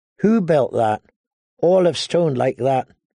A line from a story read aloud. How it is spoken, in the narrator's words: Ygritte asked him